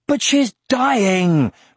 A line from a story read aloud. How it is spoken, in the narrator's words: retorted Aragorn angrily